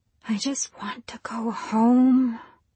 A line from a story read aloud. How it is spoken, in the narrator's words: whispered Nancy